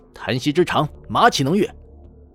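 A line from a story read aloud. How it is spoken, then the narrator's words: Angry. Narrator (Chinese): 赵云愤怒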